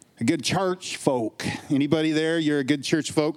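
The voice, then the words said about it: Put-on Southern accent. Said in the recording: “I'm going to do my best to say that in a good Southern accent whenever I do.”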